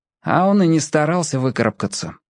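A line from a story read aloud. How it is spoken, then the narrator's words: Calm. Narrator (Russian): спокойно произнес Шурик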